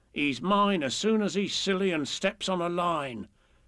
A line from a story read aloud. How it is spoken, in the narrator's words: the little bears growl to each other